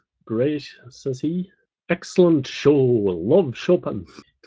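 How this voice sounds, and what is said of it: Vague put-on foreign accent. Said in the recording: “Don't know what sort of accent that was supposed to be. ... You must have been studying the way the man speaks at Potsdam.”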